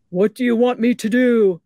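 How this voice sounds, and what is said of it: Deep voice playing God. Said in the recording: “a deep voice coming from the sky answered, and I apologize, I don't have a good God voice.”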